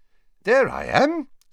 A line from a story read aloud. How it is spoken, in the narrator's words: said Dumbledore brightly